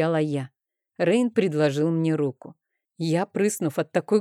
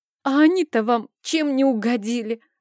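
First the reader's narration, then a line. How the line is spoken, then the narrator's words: Girl sobbing. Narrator (Russian): разрыдалась девчонка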